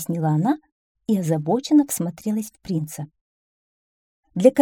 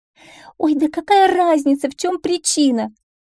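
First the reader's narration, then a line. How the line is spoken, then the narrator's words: Exclaiming. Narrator (Russian): воскликнула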